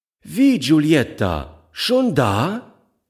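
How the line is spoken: Calling to child. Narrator (German): rief sie dem Kind zu

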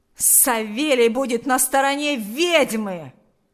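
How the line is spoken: Angry yell. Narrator (Russian): злобно завопил Ахрим

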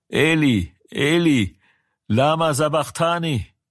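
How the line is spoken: Loud cry. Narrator (German): schrie Jesus laut und sprach

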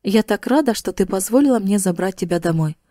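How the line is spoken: Mumbled. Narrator (Russian): Она пробормотала

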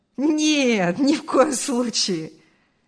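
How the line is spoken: Laughing. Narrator (Russian): рассмеялся Артур

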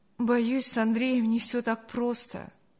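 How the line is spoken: Sad. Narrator (Russian): грустно сказала Саша

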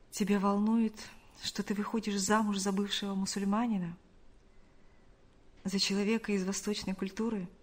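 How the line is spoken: Quiet question. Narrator (Russian): тихо спросил

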